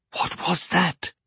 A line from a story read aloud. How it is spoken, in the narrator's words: whispered her mother